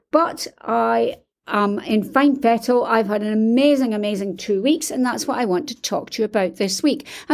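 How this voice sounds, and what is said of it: Hoarse, tired voice. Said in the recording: “I'm suffering from jet lag ... Hence the reason I'm hoarse and I'm exhausted.”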